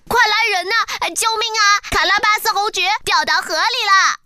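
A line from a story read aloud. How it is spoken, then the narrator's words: Loud desperate shouting. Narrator (Chinese): 猫扯着嗓子大声呼喊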